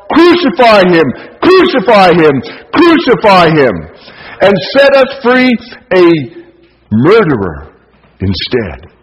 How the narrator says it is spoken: This same group of people who had been manipulated by the politically elite began to shout

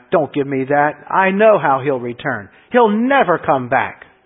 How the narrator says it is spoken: Anna snapped

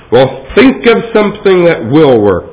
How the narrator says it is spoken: the mayor thundered

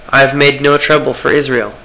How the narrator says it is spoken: Elijah replied

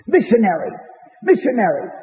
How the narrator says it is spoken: said

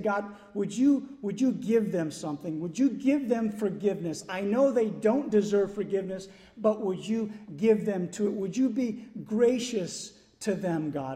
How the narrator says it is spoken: Moses is pleading

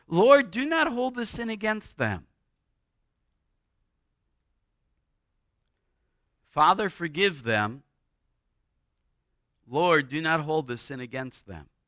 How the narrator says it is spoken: Stephen, as he's being stoned, he cries out

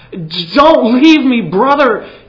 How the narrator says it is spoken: he cried

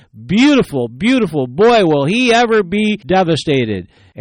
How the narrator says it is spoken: With revenge in her eyes, she smiled and she exclaimed

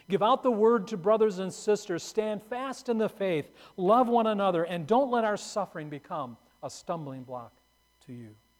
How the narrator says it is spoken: Perpetua called out to some grieving friends

